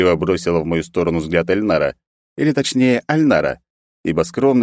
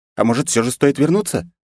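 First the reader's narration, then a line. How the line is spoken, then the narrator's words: Timid suggestion. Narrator (Russian): робко предложила Айлина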